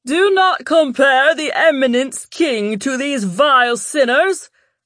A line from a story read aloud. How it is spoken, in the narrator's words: a priest shouted